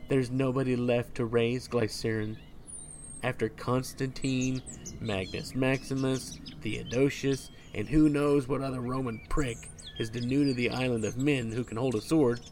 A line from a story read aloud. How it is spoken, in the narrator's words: sigh